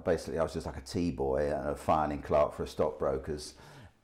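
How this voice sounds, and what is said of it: London accent. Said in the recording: “From my accent, most people would tell that I come from London”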